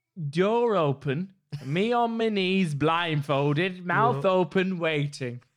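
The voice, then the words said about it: Put-on accent. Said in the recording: “Can I keep doing it in the accent? Because I'm finding it.”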